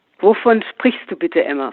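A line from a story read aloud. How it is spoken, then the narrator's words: Plain question. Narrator (German): fragte sie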